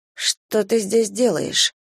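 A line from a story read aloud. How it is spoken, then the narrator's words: Hoarse question. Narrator (Russian): хрипло поинтересовалась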